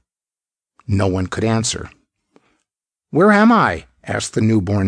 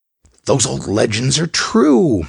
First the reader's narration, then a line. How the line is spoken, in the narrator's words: Moran gasped